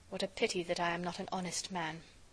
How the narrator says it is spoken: I muttered

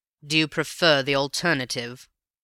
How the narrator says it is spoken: asked my companion with a sneer

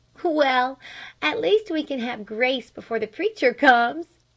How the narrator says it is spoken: she laughed

